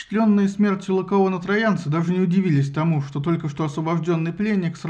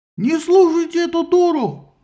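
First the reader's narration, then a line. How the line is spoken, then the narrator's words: Yelling. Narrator (Russian): заорал Синон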